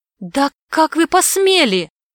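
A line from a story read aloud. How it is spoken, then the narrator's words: Indignant exclamation. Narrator (Russian): воскликнула, негодуя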